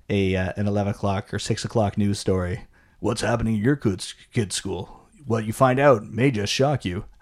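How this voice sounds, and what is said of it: TV news announcer voice. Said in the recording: “was a good impersonation of the news ... That was exactly the how news. The news sounds.”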